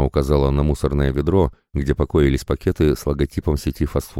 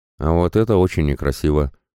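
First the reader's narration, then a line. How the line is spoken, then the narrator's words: Grumpy mutter. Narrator (Russian): буркнул Феникс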